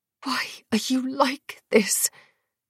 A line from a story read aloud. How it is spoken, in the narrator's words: hissed